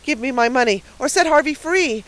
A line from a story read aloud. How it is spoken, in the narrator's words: cried the spinster in alarm